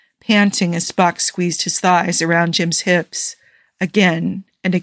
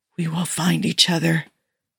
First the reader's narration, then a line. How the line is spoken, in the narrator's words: Jim whispered